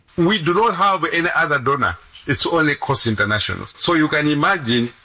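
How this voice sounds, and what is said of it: Malawian-accented English. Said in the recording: “you're going to hear his accent ... right from Malawi”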